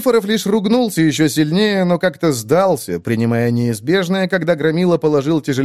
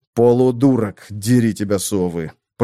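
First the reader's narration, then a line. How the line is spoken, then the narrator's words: Through gritted teeth. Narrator (Russian): процедил я сквозь зубы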